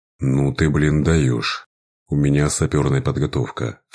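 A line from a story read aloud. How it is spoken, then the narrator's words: Melancholic tone. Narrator (Russian): все таким же меланхоличным тоном заметил Вова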